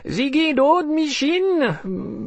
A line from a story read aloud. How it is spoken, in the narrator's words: a witch was screeching